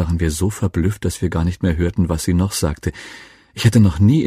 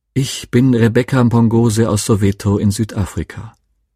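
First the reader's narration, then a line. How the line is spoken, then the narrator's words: Pleasant voice. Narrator (German): Mit angenehmer Stimme begann sie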